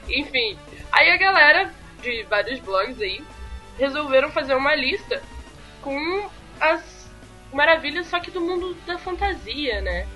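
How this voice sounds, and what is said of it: Heavy Carioca accent. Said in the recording (Portuguese): “Por que, que você tá com o sotaque carioquês mais carregado hoje?”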